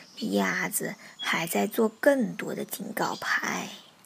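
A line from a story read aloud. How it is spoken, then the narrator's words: Low mutter. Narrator (Chinese): 青蛙低声咕囔道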